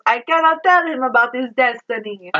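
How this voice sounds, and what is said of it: Over-the-top Italian accent. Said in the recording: “I'm doing this over-the-top Italian accent”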